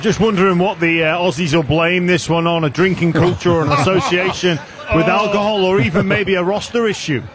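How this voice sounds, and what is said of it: English accent. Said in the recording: “I picked up a bit of an accent there ... the English”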